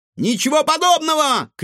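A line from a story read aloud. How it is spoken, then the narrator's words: Shouted reply. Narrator (Russian): крикнул в ответ Егор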